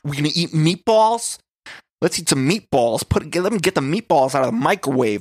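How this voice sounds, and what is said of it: Aggressive stereotypical Italian accent. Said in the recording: “a very aggressive, like, sort of Italian accent. It's like it's not a full Italian accent ... a very stereotypical Italian accent”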